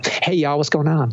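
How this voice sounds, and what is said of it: Put-on Southern US accent. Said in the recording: “I'm going to pick up this accent”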